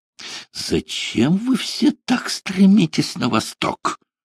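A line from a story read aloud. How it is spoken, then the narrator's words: Exclamation. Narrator (Russian): воскликнул Нессельроде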